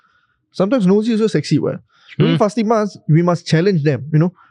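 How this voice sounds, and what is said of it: Usual voice. Nothing is said of it.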